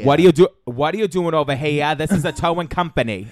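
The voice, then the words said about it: Exaggerated Boston accent. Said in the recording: “the most Boston North Shore people ... the worst Boston accent”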